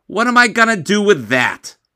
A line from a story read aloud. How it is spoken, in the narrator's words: I yelled